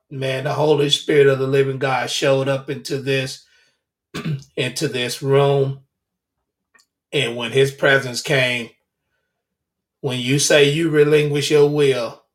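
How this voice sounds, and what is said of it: Slightly hoarse voice. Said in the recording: “I'm a little hoarse. I was not intending to go that hard.”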